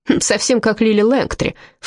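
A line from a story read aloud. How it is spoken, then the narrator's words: Snorting. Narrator (Russian): фыркнул он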